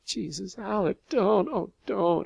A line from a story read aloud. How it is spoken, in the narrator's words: I moaned with fear